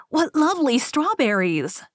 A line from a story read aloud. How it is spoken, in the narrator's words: exclaimed